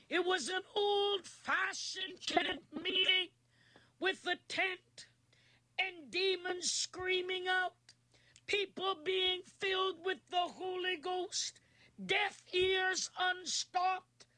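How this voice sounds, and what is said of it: Weak, strained voice. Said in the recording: “my throat and my voice is not as strong as it normally is”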